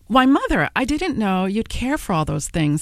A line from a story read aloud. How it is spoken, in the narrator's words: exclaimed